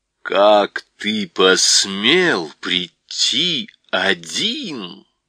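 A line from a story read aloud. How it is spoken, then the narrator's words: Witch's terrifying voice. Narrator (Russian): проговорила колдунья страшным голосом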